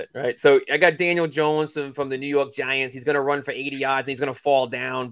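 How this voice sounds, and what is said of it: Put-on New York accent. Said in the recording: “Why did I give Brendan a New York accent there too? That was weird.”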